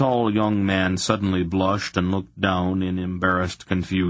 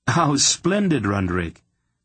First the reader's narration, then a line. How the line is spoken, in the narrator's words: Garion exclaimed quickly to cover the little dagger cut of disappointment